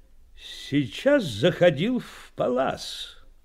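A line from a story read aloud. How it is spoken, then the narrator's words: Loud. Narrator (Russian): громко заговорил он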